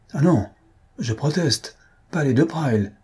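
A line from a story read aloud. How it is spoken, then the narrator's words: Little girl exclaiming. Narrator (French): s'écria la petite de Lassolet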